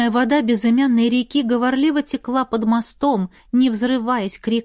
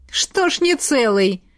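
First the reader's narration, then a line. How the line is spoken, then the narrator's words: Snort. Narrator (Russian): хмыкнул Игорь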